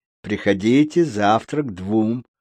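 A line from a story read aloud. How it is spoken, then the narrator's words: Plain. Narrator (Russian): сказал доктор Доус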